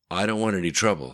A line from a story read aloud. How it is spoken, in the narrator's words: said Orphan